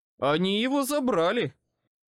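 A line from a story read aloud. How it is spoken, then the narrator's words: Echoing growl. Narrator (Russian): эхом прорычал я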